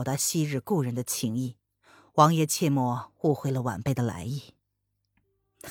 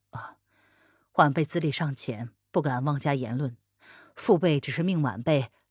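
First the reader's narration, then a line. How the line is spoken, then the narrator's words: Flat, calm. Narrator (Chinese): 风清晨淡淡的说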